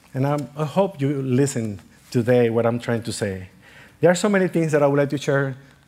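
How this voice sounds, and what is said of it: Non-native accented English. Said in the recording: “don't apologize for your accent. You know what? It's forcing us to pay more attention and to listen better.”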